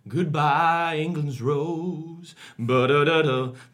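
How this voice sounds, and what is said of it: Sung impression of another singer. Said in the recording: “That's actually a pretty good impression. ... Yeah, pretty solid.”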